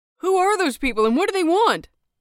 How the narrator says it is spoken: someone shouted

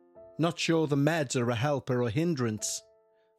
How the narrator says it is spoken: said Auntie Wendy

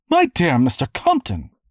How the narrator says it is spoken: Dame Nora was exclaiming

